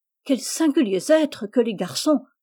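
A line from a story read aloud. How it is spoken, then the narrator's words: Exclaiming. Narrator (French): s'écria Rose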